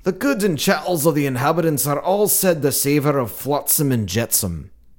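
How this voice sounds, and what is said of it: Put-on Scottish accent. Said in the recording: “Let me try it in a Scottish accent. ... That was good. ... That was a good Scottish.”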